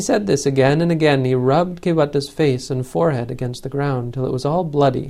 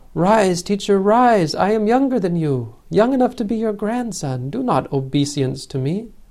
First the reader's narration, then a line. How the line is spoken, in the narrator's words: the great being cried